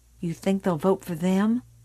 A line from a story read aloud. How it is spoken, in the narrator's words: Billy said softly